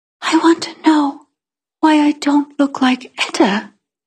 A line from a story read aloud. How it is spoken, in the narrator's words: I said in my smallest voice